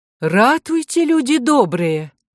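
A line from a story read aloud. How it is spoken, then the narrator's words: Shocked exclamation. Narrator (Russian): она увидела на боку пациентки кровоподтек такого размера и интенсивности, что воскликнула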